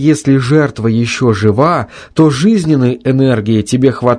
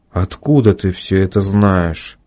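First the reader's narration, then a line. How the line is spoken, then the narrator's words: Very quiet, tired, doomed question. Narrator (Russian): Совсем тихо, усталым и каким-то обреченным голосом спросил Алексей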